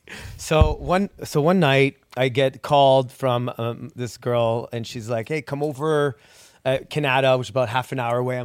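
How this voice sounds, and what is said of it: Slight French accent. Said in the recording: “a little bit of a French accent”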